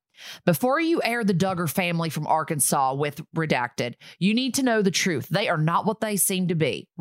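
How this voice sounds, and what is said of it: Put-on Southern American accent. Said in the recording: “Should I do it in a southern accent? ... All right, I'll do it in a southern accent.”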